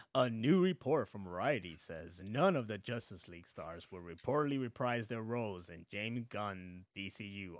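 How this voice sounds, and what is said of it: Radio announcer voice. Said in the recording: “my radio voice.”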